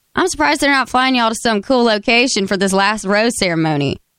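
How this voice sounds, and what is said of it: Put-on Southern country accent. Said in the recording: “I have to say in a country accent because he's like super Southern”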